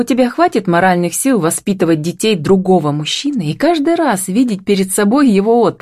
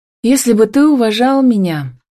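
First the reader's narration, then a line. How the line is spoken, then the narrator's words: Sighed. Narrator (Russian): вздохнула Камила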